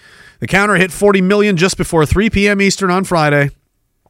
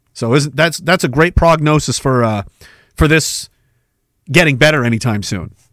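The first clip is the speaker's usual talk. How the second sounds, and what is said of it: Sarcastic tone. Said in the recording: “Obviously, I'm being sarcastic.”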